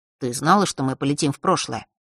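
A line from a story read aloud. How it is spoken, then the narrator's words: Calm question. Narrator (Russian): спросил он спокойным голосом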